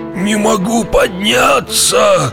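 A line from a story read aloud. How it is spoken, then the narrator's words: Groaning hunchback. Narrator (Russian): стонал горбун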